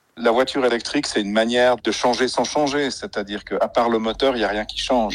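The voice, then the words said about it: Slight Swiss French accent. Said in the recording (French): “son petit accent suisse”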